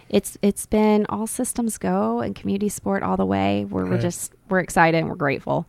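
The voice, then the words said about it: Southern drawl. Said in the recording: “The whole Southern drawl just came out. I heard that.”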